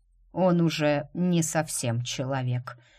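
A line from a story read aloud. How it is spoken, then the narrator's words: Even tone. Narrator (Russian): ровным тоном проговорил Грег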